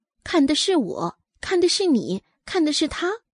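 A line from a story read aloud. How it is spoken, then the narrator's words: Quiet muttering. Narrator (Chinese): 那些贵女们小声的嘀咕道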